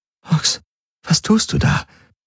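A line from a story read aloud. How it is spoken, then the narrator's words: Whispered. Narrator (German): Kirai flüstern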